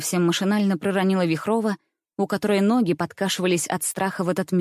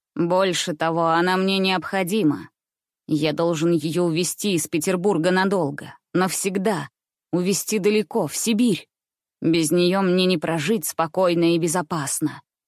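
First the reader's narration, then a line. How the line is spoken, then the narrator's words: Hoarse, strong, not old. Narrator (Russian): продолжал незнакомец своим хриплым, далеко опять-таки не слабым и не старческим голосом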